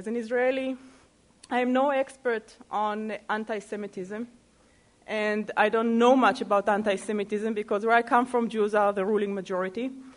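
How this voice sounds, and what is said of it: Israeli-accented English. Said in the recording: “speaking as an Israeli ... I can use my accent”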